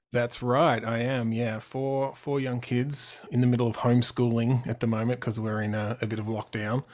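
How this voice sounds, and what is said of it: Australian accent. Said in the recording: “Australia. Wait for the accent. ... Get the accent going.”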